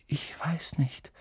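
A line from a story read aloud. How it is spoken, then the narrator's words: Quiet. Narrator (German): sagte leise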